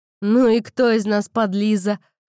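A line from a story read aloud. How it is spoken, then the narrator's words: Snorting. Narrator (Russian): хмыкнул Рэй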